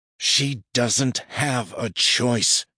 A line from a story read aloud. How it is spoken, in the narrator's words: he snarls